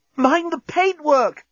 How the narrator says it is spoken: gasped Corporal Inchby Wiglet

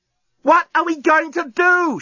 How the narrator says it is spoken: She yelled

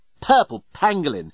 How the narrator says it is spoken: exclaimed the journalist

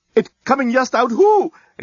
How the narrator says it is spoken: exclaimed the head reporter

